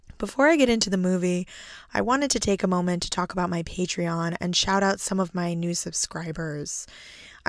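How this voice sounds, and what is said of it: Raspy, hoarse voice. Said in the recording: “I have a freak case of laryngitis that won't go away ... so please excuse my raspy voice”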